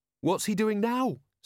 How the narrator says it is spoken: said Carrot

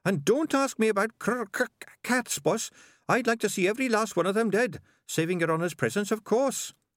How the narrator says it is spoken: Sardines added, eyeing Maurice nervously

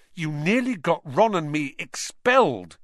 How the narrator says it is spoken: he said fiercely

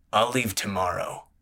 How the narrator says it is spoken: grunted

